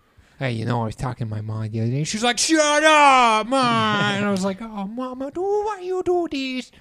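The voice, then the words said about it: High-voiced Adam Sandler impression. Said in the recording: “that's not a bad Sandler ... You just you do the high voice”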